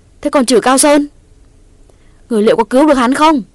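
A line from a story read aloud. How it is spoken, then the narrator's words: Loud scream. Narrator (Vietnamese): Quyết thét lớn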